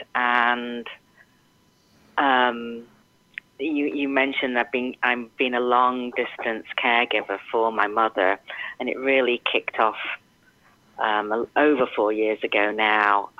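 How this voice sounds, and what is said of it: English accent. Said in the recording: “you might be able to tell from my accent, is that I am English”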